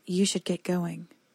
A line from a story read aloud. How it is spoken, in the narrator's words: Libby said, evenly, like a farmhand lulling cattle